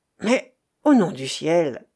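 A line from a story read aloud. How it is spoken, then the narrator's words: Exclaiming. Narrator (French): s'écria Werner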